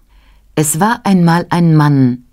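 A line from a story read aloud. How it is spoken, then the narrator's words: Plain. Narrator (German): sagte sie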